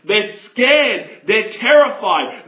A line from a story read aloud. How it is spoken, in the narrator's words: they scream